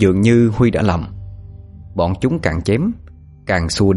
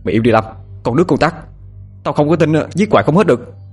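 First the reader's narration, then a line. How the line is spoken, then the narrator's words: Shouted. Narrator (Vietnamese): Huy quát lên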